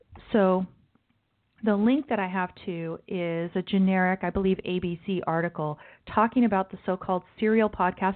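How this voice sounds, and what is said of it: Strained, worn-out voice. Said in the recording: “my voice is going bad. ... the 4 hours of sleep that I had last night. It's taking its toll on my voice.”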